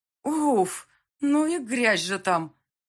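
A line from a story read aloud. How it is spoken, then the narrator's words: Exclamation. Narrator (Russian): воскликнула я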